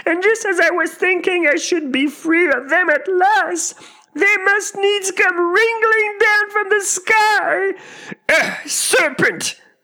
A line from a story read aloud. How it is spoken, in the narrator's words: continued the pigeon, raising its voice to a shriek